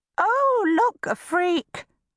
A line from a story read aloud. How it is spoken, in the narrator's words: squeaks behind and below me